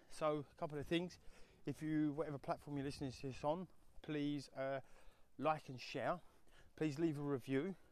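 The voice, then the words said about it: Slightly out of breath. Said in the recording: “a little bit out of breath as we're walking uphill”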